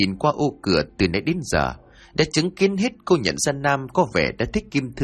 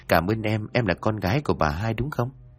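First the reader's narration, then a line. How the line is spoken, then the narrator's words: Gentle, smiling. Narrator (Vietnamese): Anh mỉm cười thật nhẹ nhàng rồi nói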